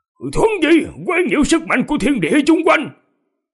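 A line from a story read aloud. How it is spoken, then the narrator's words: Loud shout. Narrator (Vietnamese): dương thực tu sĩ trong miệng quát to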